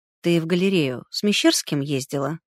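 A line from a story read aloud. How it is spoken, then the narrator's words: Quiet question. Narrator (Russian): тихо спросил Колосов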